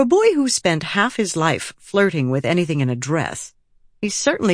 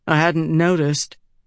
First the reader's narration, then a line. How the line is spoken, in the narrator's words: Adolin said dryly